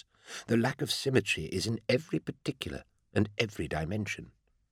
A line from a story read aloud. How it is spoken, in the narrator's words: Amos said quietly to me